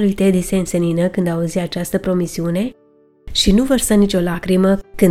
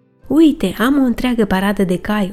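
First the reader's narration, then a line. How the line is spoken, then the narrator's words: Satisfied tone. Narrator (Romanian): observă Ted pe un ton plin de satisfacție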